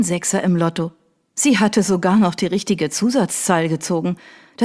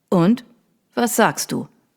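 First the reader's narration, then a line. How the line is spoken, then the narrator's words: Plain question. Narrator (German): fragte David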